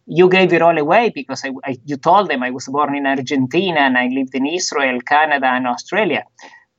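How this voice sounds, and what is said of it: Hard-to-place foreign accent. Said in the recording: “I speak with a funny accent ... where is he from? Where is his accent from?”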